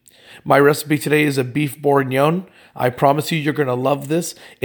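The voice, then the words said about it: Slightly funny, sore-throat voice. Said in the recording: “I know my voice sounds a little bit funny right now. I had a little bit of a sore throat”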